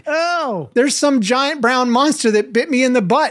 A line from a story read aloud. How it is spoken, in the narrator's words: he cried in anguish